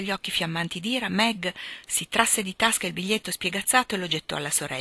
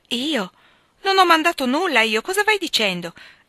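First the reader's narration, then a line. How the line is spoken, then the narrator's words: Astonished exclamation. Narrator (Italian): esclamò stupita Joe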